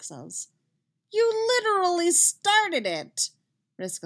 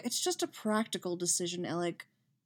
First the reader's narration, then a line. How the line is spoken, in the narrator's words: Cody says, sighing